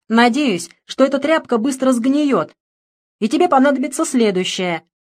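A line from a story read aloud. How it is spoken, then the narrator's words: Farewell shout. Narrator (Russian): крикнул он на прощание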